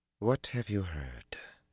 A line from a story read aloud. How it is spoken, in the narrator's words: she asked quietly, her head still down